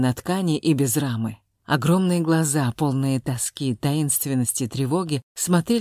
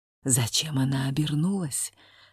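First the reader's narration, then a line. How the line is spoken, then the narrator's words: Whispered question. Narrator (Russian): спросил шепотом Василий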